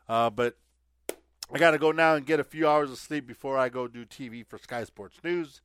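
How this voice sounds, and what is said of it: Strained, unwell-sounding voice. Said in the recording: “I'm playing hurt. You could tell it in my voice.”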